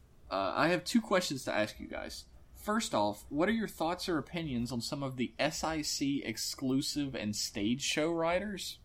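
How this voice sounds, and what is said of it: Southern American accent. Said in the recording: “I'm the one with the stupid southern accent”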